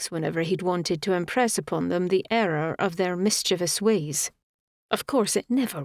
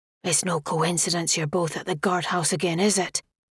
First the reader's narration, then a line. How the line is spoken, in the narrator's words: His whisper was sharp